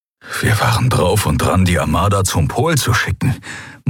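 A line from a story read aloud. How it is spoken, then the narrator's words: Horrified murmur. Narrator (German): murmelte, entsetzt darüber, wie fatal diese Entscheidung gewesen wäre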